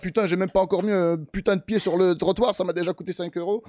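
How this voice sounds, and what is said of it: Put-on snobbish Parisian French accent. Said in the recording (French): “c'est un accent parisien ... C'est le snobinard parisien.”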